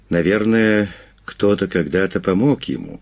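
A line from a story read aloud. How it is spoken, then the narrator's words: Sighing. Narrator (Russian): вздохнул солист Альбатроса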